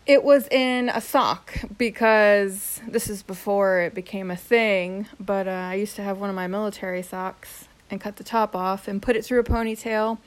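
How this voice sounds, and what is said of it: Hoarse, voice giving out. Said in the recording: “I keep losing my voice here”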